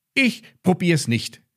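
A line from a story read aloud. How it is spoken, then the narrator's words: Called out. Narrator (German): rief Max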